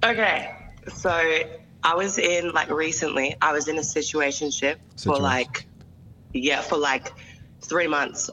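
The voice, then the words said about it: Speaks with an accent. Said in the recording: “Oh, she got an accent. ... She got an accent.”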